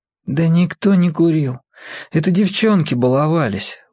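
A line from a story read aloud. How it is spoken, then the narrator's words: Tired. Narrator (Russian): устало сказал Володя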